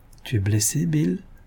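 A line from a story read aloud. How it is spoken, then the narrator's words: Worried murmur. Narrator (French): murmura-t-elle, inquiète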